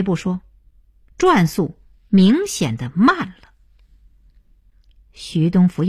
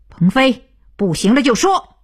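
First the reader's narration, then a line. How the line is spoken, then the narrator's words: Loud. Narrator (Chinese): 徐东福大声道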